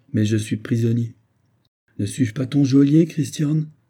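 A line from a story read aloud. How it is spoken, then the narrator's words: Gentle reproach. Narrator (French): dit d'un ton de doux reproche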